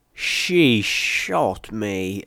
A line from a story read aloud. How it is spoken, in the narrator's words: I groaned